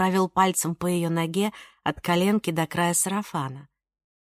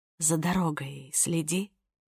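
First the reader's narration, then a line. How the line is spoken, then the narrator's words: Whispered. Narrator (Russian): прошептала Ника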